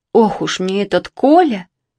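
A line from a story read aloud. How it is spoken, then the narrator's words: Sighing. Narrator (Russian): вздохнула Евдокия Петровна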